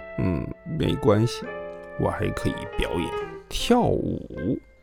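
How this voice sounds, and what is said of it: Quiet, soft-spoken voice. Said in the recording (Chinese): “小声”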